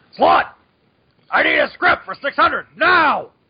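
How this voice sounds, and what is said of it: Shouty J. Jonah Jameson impression. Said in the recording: “doing his best Jonah impression”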